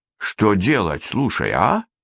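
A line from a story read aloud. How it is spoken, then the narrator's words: Bewildered question. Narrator (Russian): растерянно спросил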